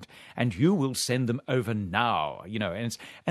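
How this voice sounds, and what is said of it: Exaggerated British accent. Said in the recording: “He's got a very British accent... he has a terribly British accent”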